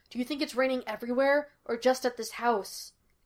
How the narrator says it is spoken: Gus asked nervously

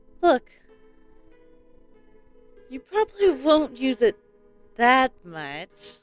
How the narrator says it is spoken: Seeing the nervous looks I was giving her with a fake smile and laugh prompted her to say

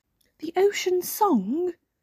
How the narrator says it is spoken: gasped Snork Maiden

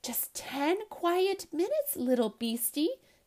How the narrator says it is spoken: Tess whispers

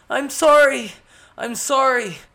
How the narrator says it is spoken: Skemos pleaded with her

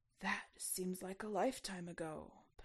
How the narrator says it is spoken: Poniatowski replied sadly

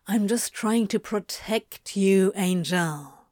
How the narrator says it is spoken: Crowley murmured

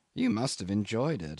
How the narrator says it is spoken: murmured, feeling the stir of sympathetic emotion

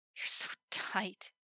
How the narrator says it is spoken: muttered in disbelief

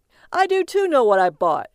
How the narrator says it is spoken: he called out to her

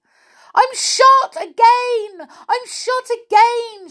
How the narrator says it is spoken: yelled

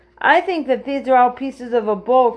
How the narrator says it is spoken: cried Joe

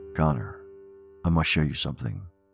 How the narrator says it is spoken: it said

